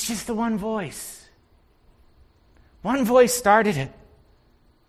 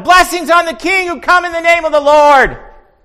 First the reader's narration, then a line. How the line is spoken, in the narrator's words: Maybe it was Peter that just shouted